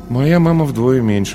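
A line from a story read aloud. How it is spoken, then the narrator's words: Sighed. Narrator (Russian): вздохнул Паша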